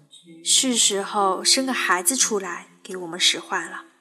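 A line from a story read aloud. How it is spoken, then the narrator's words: Long sigh. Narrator (Chinese): 他长叹一声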